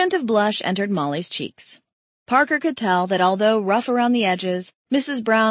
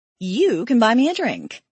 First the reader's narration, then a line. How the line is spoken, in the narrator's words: she giggled